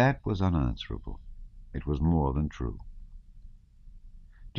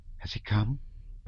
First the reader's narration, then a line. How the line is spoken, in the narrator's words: Natasha asked quickly in a whisper, afraid to move lest she should rouse the dozing baby